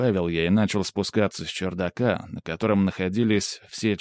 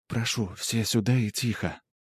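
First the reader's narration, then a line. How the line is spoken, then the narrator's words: Young woman whispering. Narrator (Russian): шепотом произнесла девушка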